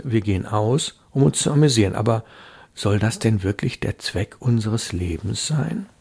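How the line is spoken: Soft. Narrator (German): sagte Hilda leise

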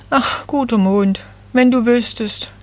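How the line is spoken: Small tree sighing. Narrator (German): seufzte das Nadelbäumchen

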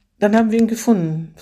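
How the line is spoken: Finished with a sigh. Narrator (German): vollendete sie mit einem Seufzer

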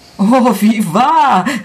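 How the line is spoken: Emotional exclamation. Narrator (German): rief aus mit vollem, überströmenden Gefühl

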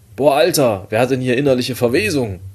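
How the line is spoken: Loud call. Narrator (German): rief laut

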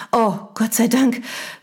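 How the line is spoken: Relieved sigh. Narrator (German): seufzte sie mit einem erleichterten Lächeln

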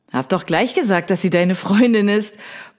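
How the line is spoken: Blustering, flushed with laughter. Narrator (German): poltert Finn, der vor Lachen anläuft

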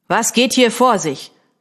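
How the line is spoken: Commanding demand. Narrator (German): verlangte er mit gebieterischer Stimme zu wissen

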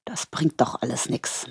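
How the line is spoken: Finally muttered. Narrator (German): murmelte er schließlich

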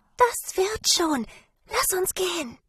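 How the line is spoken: Whispering. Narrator (German): flüsterte sie

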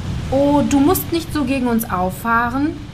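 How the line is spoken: Plain. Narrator (German): sagte der Südwind

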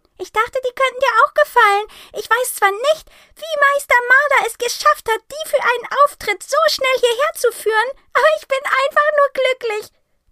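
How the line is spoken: Excited squeak. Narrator (German): fiepst sie aufgeregt

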